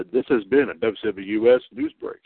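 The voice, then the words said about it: Announcer voice. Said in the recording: “I was trying to do my announcer voice.”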